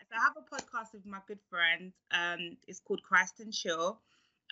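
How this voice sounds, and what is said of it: British accent. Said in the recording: “obviously you can tell from the accent, I am from UK”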